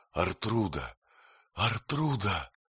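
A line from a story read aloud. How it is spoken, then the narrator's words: Hoarse scream. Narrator (Russian): она закричала хрипло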